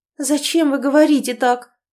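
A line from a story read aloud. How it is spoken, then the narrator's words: Miserable trembling babble. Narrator (Russian): пролепетала она несчастно, дрожа всем телом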